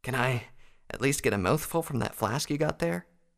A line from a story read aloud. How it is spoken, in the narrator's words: Updraft asked weakly